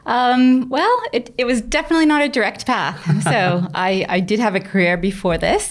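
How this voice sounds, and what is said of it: American accent, not Australian. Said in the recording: “that's not an Australian accent we hear on the other end of the microphone ... someone from Braintree, Massachusetts on the east coast of the United States”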